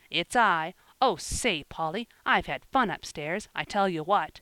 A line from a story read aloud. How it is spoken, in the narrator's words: cried confidently